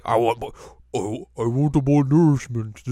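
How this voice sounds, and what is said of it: Imitates another person's voice. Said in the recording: “This is my Andre the Giant impersonation. It's not very good. I need to be sounding more French.”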